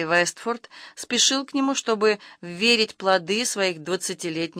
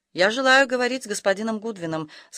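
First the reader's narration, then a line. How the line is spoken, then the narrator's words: Plain. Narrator (Russian): сказал капитан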